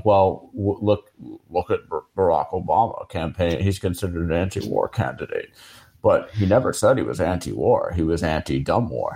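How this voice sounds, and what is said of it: Slow imitation of another person's voice. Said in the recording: “Pretty good impression there. ... it's getting easier to do a Chomsky impression as he's slower and slower”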